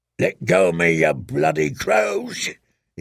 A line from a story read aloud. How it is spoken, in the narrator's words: he roared